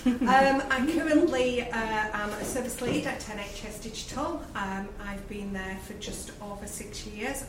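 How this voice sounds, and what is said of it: Lancashire English accent. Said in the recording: “as you can tell from my accent, I'm from Lancashire.”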